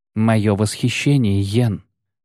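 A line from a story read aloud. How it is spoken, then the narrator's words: Muffled hollow voice. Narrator (Russian): глухо проговорила Трис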